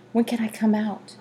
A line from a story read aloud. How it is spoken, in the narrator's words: He said softly